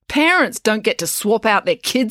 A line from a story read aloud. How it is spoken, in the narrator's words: snapped April